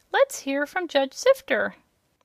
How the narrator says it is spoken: a big kitchen fork said in a tiny voice

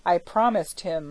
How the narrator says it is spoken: said he

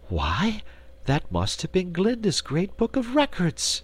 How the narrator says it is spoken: exclaimed Dorothy

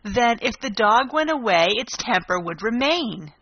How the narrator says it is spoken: the Queen exclaimed triumphantly

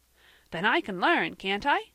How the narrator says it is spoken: cried Van joyfully

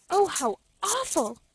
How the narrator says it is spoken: she gasped

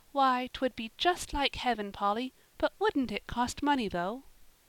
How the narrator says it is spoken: said little Davy, drawing a long sigh

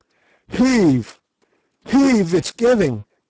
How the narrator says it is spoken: gasped Sir Henry

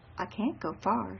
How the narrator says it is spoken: she said, and her voice was quiet, unperturbed

